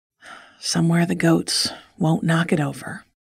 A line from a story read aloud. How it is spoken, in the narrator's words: he said with a sigh